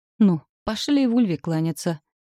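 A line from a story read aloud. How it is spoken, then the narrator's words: Resigned sigh, husband. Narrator (Russian): обреченно вздохнул муж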